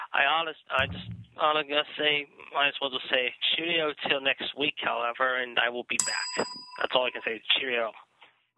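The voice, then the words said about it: Weak put-on British accent. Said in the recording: “give us a typical UK saying in your best British accent ... I'll try to do the best voice I can. But it's not a great British voice.”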